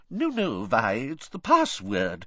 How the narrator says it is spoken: said the fat lady soothingly

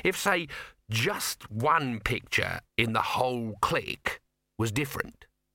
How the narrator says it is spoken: he said slowly

